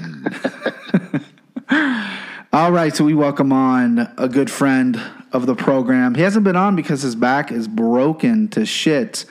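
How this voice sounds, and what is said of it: Put-on radio announcer podcast voice. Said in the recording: “I'm gonna intro it like a fucking radio station ... here comes the old podcast voice”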